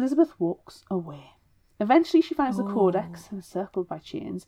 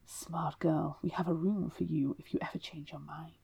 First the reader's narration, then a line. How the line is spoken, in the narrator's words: the grimoire, the Illusrium, whispers